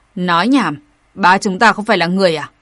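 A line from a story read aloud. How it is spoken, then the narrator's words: Angry scolding. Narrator (Vietnamese): tức giận mắng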